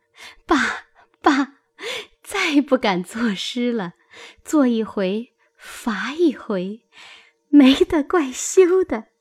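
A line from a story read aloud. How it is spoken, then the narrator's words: Laughing. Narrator (Chinese): 黛玉笑道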